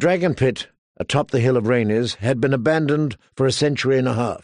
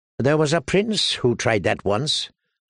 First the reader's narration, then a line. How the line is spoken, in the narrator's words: said Tyrion dryly